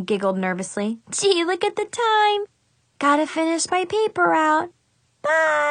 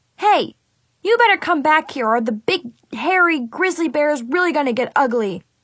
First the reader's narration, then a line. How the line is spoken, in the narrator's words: I yelled